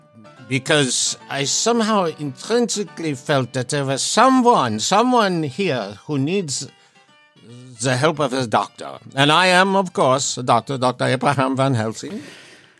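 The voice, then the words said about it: Dutch-German accent, imitates actor's voice. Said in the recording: “your absolutely rockin' German accent? ... Austrian? ... Dutch? It's actually my Anthony Hopkins imitation. ... It's pretty good. ... Got Tony Hopps dead to rights, dude.”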